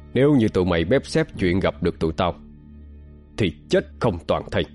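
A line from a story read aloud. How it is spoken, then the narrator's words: Harsh, menacing growl. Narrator (Vietnamese): Vĩ An gằn giọng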